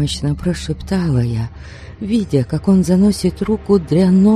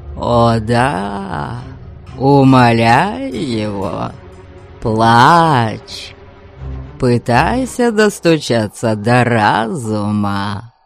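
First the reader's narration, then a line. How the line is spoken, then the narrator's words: Excited cackle. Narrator (Russian): Возбужденно хохотнул Аргас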